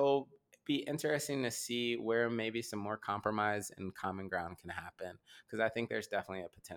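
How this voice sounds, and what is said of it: Usual voice. Nothing is said of it.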